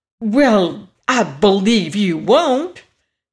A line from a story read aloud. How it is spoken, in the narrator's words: exclaimed Dorothy